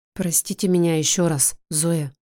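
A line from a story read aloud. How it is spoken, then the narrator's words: Quiet. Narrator (Russian): говорит тихо Виктория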